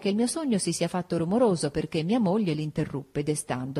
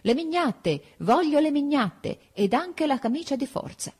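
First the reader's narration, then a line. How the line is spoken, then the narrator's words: Yelling. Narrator (Italian): battevo il pugno su un libro di medicina ed urlavo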